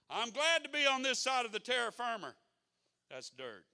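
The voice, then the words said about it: Mississippi accent, dropped R. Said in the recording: “it don't have an R on the end. That's just my Mississippi brogue coming out in me”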